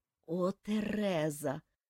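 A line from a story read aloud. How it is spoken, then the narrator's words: Moaning. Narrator (Russian): простонал он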